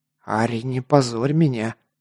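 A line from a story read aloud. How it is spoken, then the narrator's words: Hissed. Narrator (Russian): зашипел на демоницу Гар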